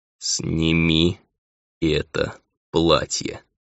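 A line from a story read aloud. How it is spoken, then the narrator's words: Slow, syllable by syllable. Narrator (Russian): медленно по слогам произнес Эмил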